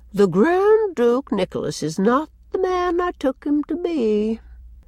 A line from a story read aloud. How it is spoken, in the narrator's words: Cousin Sophia sighed again and said